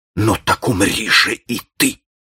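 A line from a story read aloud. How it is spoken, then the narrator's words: Muttered through clenched teeth. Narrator (Russian): пробормотал он сквозь зубы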